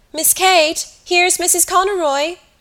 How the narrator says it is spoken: Lily called out

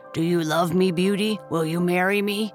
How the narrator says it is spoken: said in his gruff voice

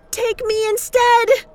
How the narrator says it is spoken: she screamed

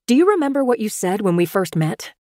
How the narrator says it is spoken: I gathered my nerve and blurted out

